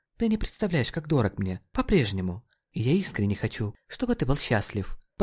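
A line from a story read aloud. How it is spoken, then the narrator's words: Whisper. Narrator (Russian): прошептала она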